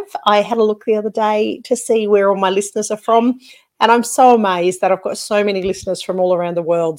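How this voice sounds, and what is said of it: Broad Australian accent. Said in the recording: “I've been told that I have got a bit of an ochre accent ... I do sometimes drop into my Aussie slang”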